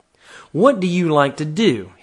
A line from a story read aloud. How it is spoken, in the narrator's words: his father asked